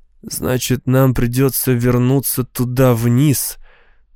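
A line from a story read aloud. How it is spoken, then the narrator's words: Dull, flat voice. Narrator (Russian): тусклым голосом сказал он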